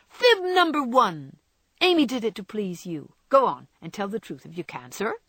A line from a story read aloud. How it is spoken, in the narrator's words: Joe exclaim